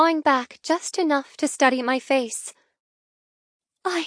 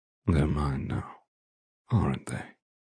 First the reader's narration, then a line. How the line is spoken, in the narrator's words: He asks in a smoky tone